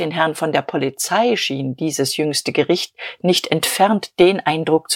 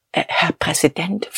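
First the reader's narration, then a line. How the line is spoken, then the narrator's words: Whispered, unsteady. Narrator (German): flüsterte er wankend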